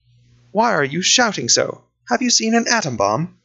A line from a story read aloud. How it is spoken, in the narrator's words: I said this so calmly